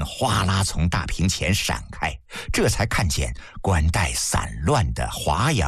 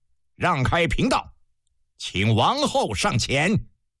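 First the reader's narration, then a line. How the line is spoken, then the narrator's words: Stern command. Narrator (Chinese): 厉声下令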